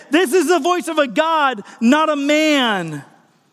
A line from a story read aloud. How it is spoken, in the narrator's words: the people begin to shout out, Josephus tells us, that they said